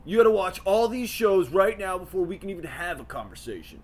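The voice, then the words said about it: Impression of an internet commenter. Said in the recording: “That's my impression of the internet.”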